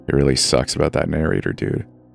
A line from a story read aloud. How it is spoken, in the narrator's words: he murmured